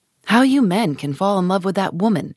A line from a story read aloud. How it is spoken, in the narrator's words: exclaimed the old lady